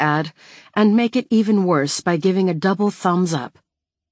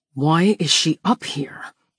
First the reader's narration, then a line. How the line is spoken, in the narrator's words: he hisses